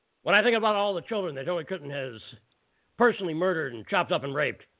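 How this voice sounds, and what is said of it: Gruff imitation of another person's voice. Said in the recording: “I'll try to do it with a gruffer voice ... So that was my Alex ... Jones ... my impression.”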